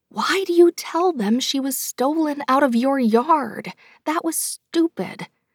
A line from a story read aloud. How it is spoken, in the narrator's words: whisper yelled